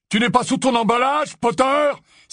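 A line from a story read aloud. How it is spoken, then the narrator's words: Crying out. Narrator (French): s'écria le mange-mort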